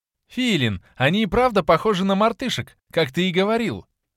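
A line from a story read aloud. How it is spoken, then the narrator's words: Laughing exclamation. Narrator (Russian): Со смехом воскликнула лисичка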